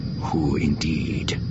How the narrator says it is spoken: Card murmured

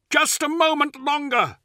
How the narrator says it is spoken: cried the librarian

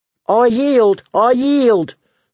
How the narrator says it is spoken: the dwarf on the bottom screamed

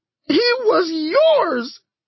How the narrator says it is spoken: screamed

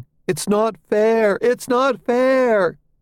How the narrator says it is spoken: The victim's own child pitches in as the mother dies, screaming

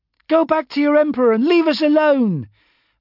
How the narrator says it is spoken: a pretty girl shouted

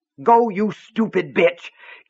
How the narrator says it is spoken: Keaton yelled

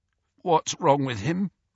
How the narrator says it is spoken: croaked Fred, looking terrified

